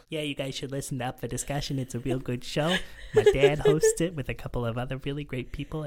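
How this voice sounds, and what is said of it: Kind of a Jersey accent. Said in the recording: “I didn't know you had kind of a Jersey accent.”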